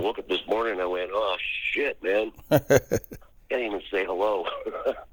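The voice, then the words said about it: Husky, hoarse voice. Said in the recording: “My voice is so husky”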